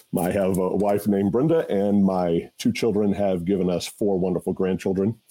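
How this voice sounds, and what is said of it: Rich radio-style voice. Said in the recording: “you have the best podcast voice of anybody on the you have a radio voice”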